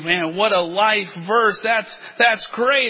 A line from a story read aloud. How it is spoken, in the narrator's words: Oh, they were so excited and exclaimed